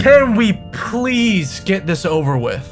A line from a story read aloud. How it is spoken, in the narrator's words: Avery groaned in frustration, his patience running slow, getting tired of this situation